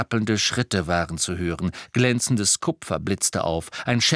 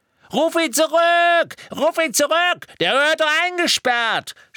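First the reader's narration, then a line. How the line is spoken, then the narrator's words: Screamed. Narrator (German): schrie Mandankes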